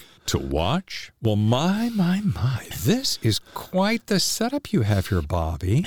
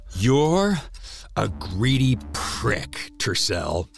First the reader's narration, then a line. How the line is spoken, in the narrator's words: he growled